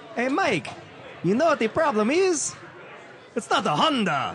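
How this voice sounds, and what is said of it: Italian-sounding accent. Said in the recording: “voice there might have sounded Italian”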